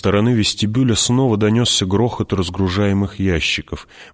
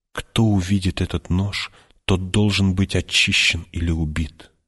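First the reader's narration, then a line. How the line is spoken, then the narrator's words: Whisper. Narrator (Russian): прошептала она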